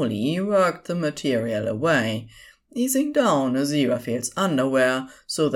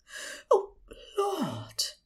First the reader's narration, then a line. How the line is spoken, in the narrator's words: Aziraphale breathed